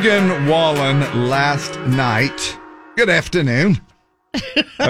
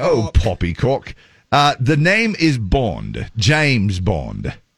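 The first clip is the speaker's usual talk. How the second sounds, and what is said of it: Put-on British accent. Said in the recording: “things that you can only say in a British accent”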